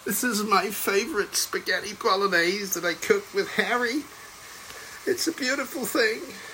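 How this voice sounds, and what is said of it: Impression of Meghan Markle. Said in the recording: “the odd Meghan impersonation”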